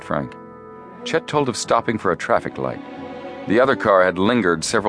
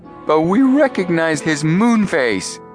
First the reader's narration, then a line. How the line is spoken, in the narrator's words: Chet said triumphantly